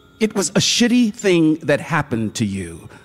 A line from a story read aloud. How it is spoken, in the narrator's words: the other spoke low and urgently